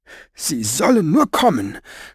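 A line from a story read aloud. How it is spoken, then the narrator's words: Trembling blurt. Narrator (German): stieß sie mit bebender Stimme hervor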